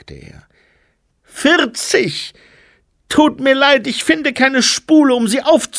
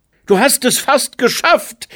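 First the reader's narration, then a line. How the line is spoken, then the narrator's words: Call. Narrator (German): rief er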